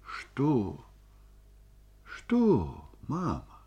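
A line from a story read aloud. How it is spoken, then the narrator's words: Tender question. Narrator (Russian): спросила нежно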